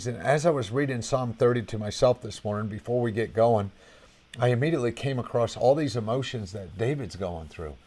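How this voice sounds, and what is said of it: Strained, hoarse voice. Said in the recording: “I'm kind of losing my voice. I did preaching last night.”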